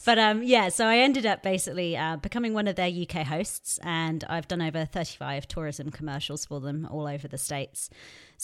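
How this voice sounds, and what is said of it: Posh British English accent. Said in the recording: “this is a real ridiculous British accent ... this is what an English accent ... she has the posh accent”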